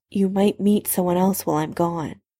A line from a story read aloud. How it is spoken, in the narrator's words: Severus said quietly